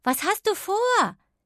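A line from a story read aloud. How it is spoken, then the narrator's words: Calling after someone. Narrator (German): rief sie ihm nach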